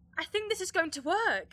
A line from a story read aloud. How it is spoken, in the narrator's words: exclaimed Lily